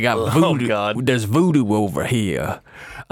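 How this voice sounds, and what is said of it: Put-on Bayou Louisiana accent. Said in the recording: “Pitch perfect Bayou Louisiana accent.”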